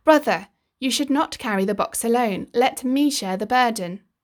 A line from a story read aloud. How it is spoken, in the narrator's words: Coyote cried out again